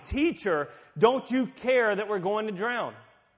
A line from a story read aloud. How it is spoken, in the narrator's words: The disciples shouting